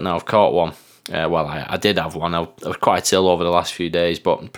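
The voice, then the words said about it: Voice affected by a cold. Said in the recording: “my voice is a little bit not quite on form today because I've got a bit of a cold”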